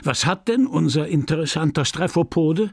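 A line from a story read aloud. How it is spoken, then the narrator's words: Breathless worried question. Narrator (German): keuchend, rot, besorgt, und fragte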